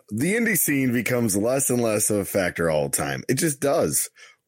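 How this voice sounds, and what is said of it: Imitates another person's voice. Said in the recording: “in your best Paul Levesque voice”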